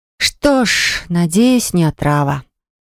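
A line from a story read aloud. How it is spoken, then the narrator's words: Exhaled. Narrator (Russian): выдохнула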